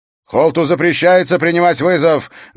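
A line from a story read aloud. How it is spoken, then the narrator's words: Angry shout. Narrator (Russian): гневно крикнул Дункан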